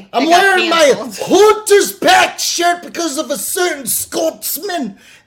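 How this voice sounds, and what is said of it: Put-on Scottish accent. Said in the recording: “That's how you do it. That's the fucking accent. ... Pretty good.”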